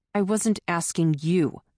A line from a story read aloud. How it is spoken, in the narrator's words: Todd snapped